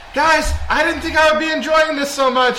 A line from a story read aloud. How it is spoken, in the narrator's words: I shout to my team